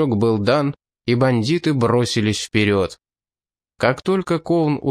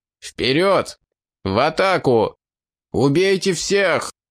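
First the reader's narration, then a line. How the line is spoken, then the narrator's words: Loud shout. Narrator (Russian): Линк громко закричал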